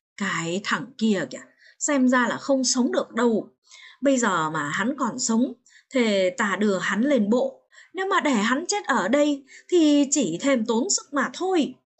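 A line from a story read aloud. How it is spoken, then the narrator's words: Whispering. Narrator (Vietnamese): người khách ở trong thuyền nói thì thào rằng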